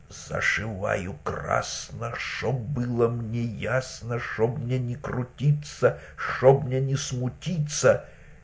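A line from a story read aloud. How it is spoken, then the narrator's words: Woman muttering. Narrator (Russian): та жинка бормочет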